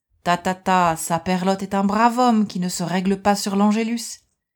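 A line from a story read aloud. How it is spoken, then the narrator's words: Sneering reply. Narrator (French): Il répondait en ricanant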